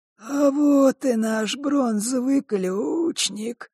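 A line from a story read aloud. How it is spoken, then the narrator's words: Creaky voice. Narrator (Russian): проскрипел Клокер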